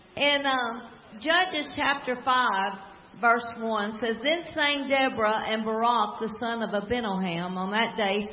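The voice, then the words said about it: Slow-spoken American Southern accent. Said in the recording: “I don't have any problem talking slow ... I've been told I have a southern accent. ... Well, it's authentic. ... Born and raised.”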